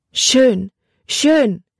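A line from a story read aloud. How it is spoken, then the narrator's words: Called out, strong accent. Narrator (German): rief mit einem starken Akzent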